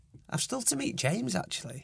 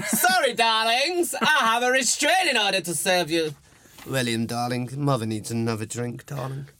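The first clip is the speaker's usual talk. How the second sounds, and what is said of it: Imitates another person's voice. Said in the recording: “my impression of your mother”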